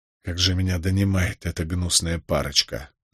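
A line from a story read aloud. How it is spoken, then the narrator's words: Exasperated sigh. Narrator (Russian): вздохнул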